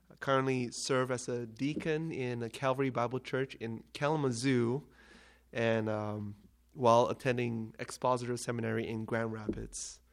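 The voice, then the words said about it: Malaysian accent. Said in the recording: “I am from Malaysia, so if you haven't caught the accent”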